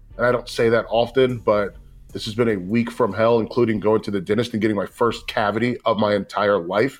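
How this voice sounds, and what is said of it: Tired-sounding voice. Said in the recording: “If I sound tired, it's because I am.”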